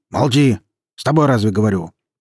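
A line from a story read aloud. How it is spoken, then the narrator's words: Menacing raised bark. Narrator (Russian): Грозно повысив голос, рявкнул Аслан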